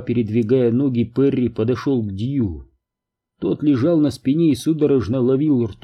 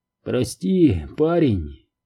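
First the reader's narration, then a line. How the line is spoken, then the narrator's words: Hoarse voice. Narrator (Russian): хрипло проговорил он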